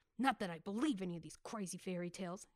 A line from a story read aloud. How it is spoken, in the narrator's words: muttered